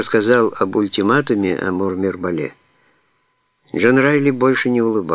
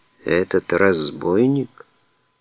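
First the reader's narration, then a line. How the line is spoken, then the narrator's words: Sad smiling. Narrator (Russian): Малька грустно улыбнулся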